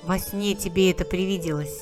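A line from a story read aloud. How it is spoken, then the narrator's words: Grumbling, bickering. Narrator (Russian): Поворчали они, побронились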